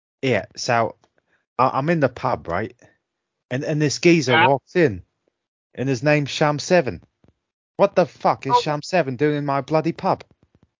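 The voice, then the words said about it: Put-on Cockney accent. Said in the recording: “Who can do the best Cockney accent?”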